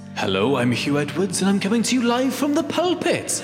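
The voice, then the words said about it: Put-on Welsh accent. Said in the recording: “How good does pulpit sound in a Welsh accent?”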